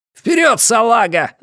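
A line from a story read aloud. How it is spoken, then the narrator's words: Shouting. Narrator (Russian): закричал он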